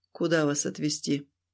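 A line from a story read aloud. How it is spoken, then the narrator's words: Tired question. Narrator (Russian): спросил устало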